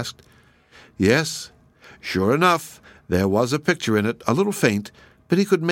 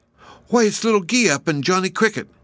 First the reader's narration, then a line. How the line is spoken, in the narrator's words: exclaimed